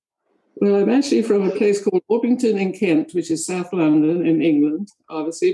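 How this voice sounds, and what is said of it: English accent with a drawl. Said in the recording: “I hear you have a lovely accent ... a lot of people think I'm Australian because I have a drawl with my accent”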